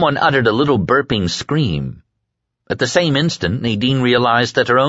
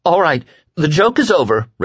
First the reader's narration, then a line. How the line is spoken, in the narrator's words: Rachel said in a tight, scared voice